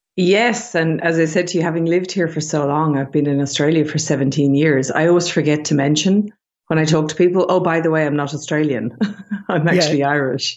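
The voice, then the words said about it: Irish accent. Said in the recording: “If the accent's throwing you off a little bit, it's definitely not an Aussie accent, but I'm sure you've, even your Irish accent's probably changed a little bit”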